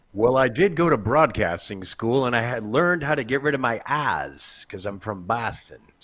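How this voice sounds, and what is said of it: Smooth broadcaster radio voice. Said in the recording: “you got the radio voice ... two incredible radio voices”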